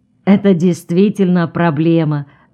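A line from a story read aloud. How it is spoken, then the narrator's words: Laughing. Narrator (Russian): засмеялась Людмила Федоровна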